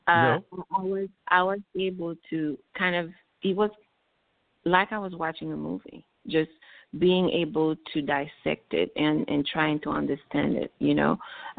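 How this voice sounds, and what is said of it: Noticeable foreign accent. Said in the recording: “I came from a different country ... my accent just took over.”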